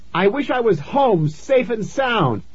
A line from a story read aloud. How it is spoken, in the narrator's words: I shouted